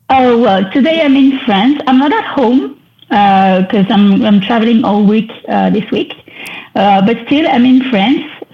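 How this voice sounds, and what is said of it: French accent. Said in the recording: “you can hear this in my beautiful French accent ... You can hear that I'm French”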